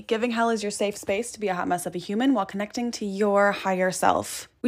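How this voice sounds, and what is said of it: Speaks with a noticeable accent. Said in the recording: “Sorry for the accent. If you are new here, you better get used to it.”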